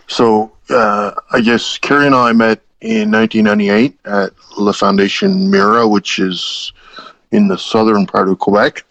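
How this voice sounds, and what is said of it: Canadian East Coast accent. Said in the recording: “my East Coast accent”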